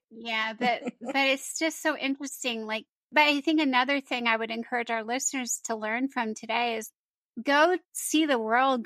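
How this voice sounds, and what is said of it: Slight Southern American accent. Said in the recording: “I better darn lose that Southern accent real fast. ... But you still have it. ... Yeah, I have a little bit. ... Yeah, I hear it.”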